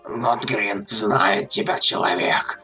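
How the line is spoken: Hiss. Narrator (Russian): прошипел он

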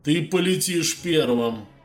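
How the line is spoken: Loud warning. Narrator (Russian): Предупредил Миндив ученика достаточно громко, чтобы слышали все, кто находился поблизости

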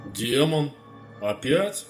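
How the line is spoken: Tired. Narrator (Russian): устало проговорил Медив

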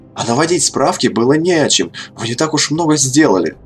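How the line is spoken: Heated exclamation. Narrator (Russian): Запальчиво воскликнул Кадгар

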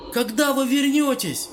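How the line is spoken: Shouting after someone leaving. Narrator (Russian): крикнул Кадгар в удаляющуюся спину

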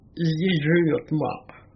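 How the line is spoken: Hoarse, muffled, ominous voice. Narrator (Russian): ответил Мороз, сиплым голосом, звучавшим столь же глухо и столь же неотвратимо, как земля, сыплющаяся на крышку гроба

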